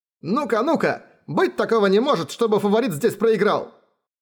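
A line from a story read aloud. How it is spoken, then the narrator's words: Shout from the hall. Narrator (Russian): Кто-то в зале крикнул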